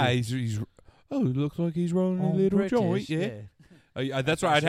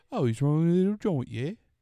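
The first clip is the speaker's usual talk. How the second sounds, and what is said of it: Attempted Cockney accent sounding Australian. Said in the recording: “I'd have to go Cockney... That sounds like if you go Cockney... That sounds Australian.”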